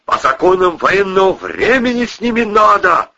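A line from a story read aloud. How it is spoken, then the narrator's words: Wailing shout. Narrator (Russian): вопил Иван Митрофанович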